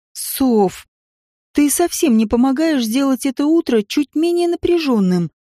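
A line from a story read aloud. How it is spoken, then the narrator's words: Embarrassed groan. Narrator (Russian): простонала я, чувствуя, как щеки буквально облизают от внутреннего жара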